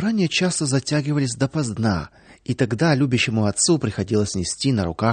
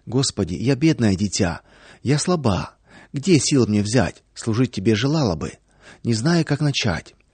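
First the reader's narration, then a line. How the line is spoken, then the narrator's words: Soft prayerful whisper. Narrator (Russian): Во время молитвы Наташа тихонечко шептала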